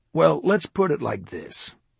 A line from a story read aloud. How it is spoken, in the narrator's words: Ron answered coolly